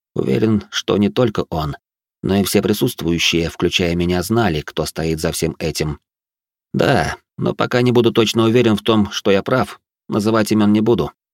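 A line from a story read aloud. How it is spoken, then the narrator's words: Calm reply. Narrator (Russian): спокойно ответил я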